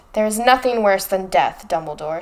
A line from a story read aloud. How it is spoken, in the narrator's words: snarled Voldemort